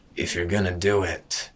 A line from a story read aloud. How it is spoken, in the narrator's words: Hatham growled